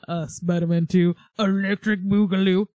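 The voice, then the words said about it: Imitates another person's voice. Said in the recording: “That's my Ryan impression. It wasn't very good.”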